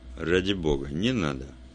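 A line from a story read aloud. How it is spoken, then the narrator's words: Muttered. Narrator (Russian): пробормотал он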